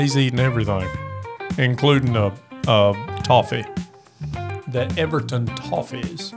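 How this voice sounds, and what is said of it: Usual voice. Nothing is said of it.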